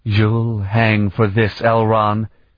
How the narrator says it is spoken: she said in a deadly voice

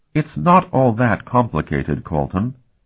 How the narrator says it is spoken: she said calmly

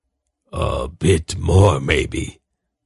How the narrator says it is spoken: Zakath grunted

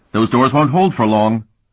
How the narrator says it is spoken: Tinian shouted

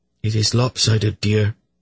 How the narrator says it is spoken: she said in a calm tone

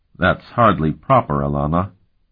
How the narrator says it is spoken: he said stiffly

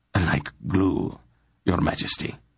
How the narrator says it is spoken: Morin replied gravely

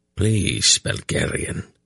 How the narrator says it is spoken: he said in a pained voice

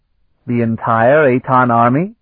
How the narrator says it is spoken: Valish exclaimed

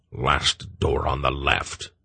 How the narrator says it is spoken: the old man grunted

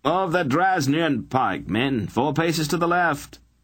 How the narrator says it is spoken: A sergeant bellowed from the top of the tower

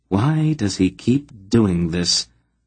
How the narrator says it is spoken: Aunt Paul asked sadly

